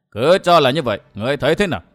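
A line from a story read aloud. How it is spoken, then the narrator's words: Sudden loud laugh. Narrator (Vietnamese): Bạch Đế bỗng cười lớn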